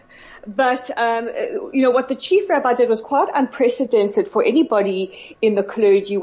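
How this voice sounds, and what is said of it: South African English accent. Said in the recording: “from South Africa... as do I, hence the strange accent”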